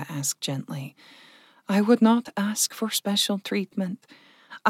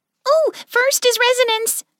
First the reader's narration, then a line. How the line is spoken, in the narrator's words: Clover blurted out